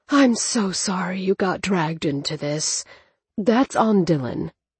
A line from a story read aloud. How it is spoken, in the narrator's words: the doctor breathed